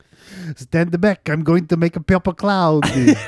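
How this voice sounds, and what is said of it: Put-on accent. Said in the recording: “Accent correct and everything.”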